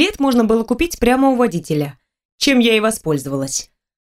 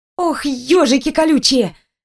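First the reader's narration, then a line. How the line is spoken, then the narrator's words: Startled exclamation. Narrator (Russian): воскликнула я, увидев свое отражение в зеркале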